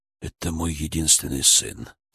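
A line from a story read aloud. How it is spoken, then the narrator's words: Quiet, near-whisper. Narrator (Russian): сказал граф тихо, почти шепотом, ни к кому конкретно не обращаясь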